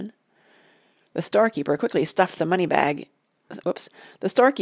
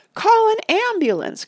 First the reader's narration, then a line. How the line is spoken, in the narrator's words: cried the lady